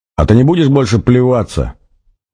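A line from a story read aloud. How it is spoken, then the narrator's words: Shouted out. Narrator (Russian): выкрикнул он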